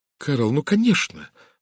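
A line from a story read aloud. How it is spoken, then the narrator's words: Exclaiming. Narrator (Russian): воскликнула Сара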